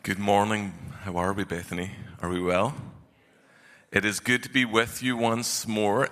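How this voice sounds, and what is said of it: Scottish accent. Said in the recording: “That's my accent... please don't call me Irish. I'm not Irish. I'm the better cousin. I'm Scottish”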